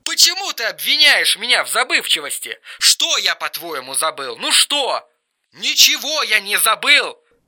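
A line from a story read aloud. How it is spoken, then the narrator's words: Hoarse straining shout. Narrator (Russian): Хрипел и надрывался Эрик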